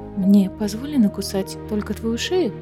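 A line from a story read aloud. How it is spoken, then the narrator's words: Plain. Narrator (Russian): спросила Аэлина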